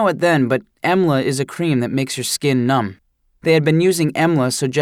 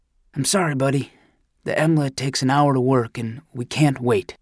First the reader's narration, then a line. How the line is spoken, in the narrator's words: The doctor's voice softened then, and he almost whispered